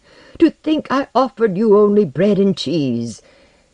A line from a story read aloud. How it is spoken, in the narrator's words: he cried